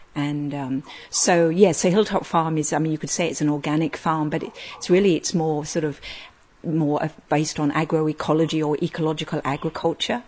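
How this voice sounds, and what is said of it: Slight foreign accent. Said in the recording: “We can pick up a bit of an accent there.”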